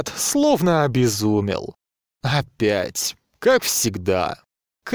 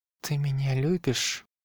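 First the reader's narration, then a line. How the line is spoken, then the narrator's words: Barely audible question. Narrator (Russian): спросила она, едва слышно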